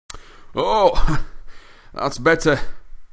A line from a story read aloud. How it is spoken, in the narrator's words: panted Mr